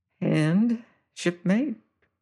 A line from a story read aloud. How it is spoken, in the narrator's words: says Penfeather softly